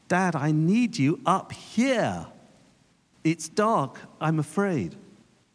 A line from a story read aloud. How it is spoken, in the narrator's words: His son called out again